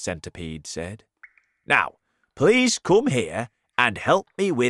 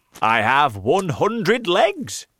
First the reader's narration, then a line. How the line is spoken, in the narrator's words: the centipede answered happily